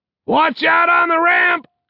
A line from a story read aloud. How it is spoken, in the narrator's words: shouted one of the engineers inside the dropship